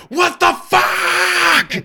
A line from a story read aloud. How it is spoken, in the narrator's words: at the top of my lungs